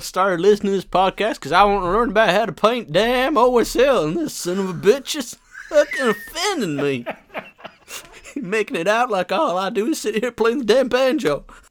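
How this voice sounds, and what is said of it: Exaggerated Southern US accent. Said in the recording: “Gerald's a fine Southern gentleman ... taking the piss out of my accent ... That is the best fucking accent ever”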